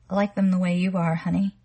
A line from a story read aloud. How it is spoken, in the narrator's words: he said, smiling sleepily at her